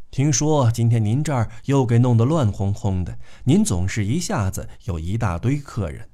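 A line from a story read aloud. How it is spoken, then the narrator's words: Soft, gentle. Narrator (Chinese): 她柔声细气地对姨妈说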